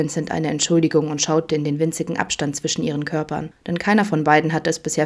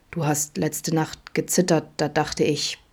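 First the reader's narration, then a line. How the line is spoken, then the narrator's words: Murmured. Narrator (German): raunte Adam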